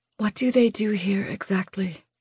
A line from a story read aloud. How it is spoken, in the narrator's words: It came as a whisper, weighed down by the dozens of other questions waiting on the cusp of this one